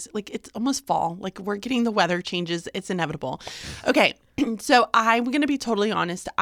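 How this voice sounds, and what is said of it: Voice keeps cutting in and out. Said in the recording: “my voice keeps going in and out”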